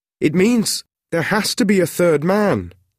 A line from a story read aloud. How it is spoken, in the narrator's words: called out